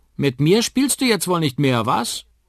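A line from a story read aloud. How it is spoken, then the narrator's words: Call from behind. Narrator (German): ruft jemand hinter ihm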